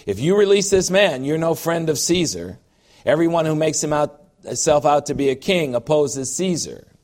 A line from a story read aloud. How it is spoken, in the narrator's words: the Jews cried out, saying